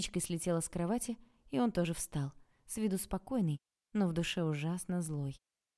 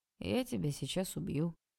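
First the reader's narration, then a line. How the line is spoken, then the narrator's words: Flat, casual tone. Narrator (Russian): совершенно будничным тоном сказал Олег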